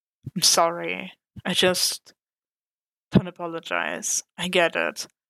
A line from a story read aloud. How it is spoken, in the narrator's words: Frank said wearily